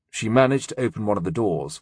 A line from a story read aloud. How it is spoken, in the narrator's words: Wolf said quietly